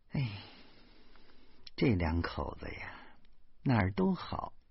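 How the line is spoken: Resigned sigh. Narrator (Chinese): 老妈无可奈何的叹了一口气说

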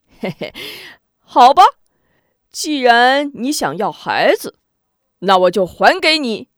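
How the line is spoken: Sudden giggling. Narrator (Chinese): 忽而嘻嘻笑道

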